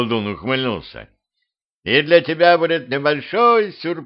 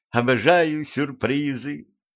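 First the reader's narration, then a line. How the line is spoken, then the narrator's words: Girl's purring voice. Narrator (Russian): промурлыкала девчонка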